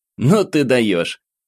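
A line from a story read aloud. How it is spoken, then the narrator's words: Chuckling. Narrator (Russian): Хохотнул Максим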